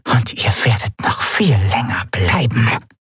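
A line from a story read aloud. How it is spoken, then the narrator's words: Whispering voice from corner. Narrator (German): wisperte eine Stimme in der Ecke des Raumes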